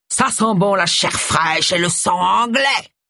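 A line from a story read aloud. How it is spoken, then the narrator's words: Roared. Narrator (French): rugit Bert Simple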